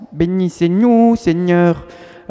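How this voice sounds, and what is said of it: Imitated Vietnamese accent in French. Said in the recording (French): “il y avait un séminariste vietnamien... Alors avec son accent,”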